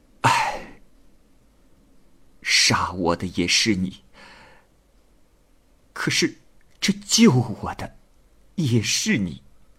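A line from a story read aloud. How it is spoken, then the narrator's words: Sighing. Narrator (Chinese): 安幼鱼叹了口气说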